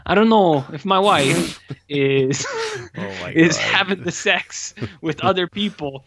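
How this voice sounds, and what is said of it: Put-on foreign accent. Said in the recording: “oh, that's a different accent.”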